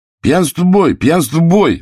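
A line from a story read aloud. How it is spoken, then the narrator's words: Sudden shout. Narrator (Russian): вдруг выкрикнул Федя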